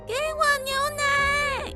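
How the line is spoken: Loud shout. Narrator (Chinese): 深吸了一口气，大声叫

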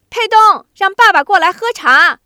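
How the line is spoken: Calling out. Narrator (Chinese): 春秀…对着西屋喊

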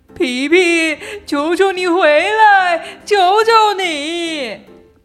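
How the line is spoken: Crying, desperate shouting. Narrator (Chinese): 他的妈妈哭着，他的爸爸对他喊叫

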